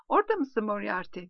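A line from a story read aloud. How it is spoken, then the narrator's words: Snickering. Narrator (Turkish): diyor Sam kıs kıs gülerek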